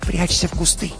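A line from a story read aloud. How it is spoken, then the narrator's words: Sister whispering. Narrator (Russian): прошептала сестра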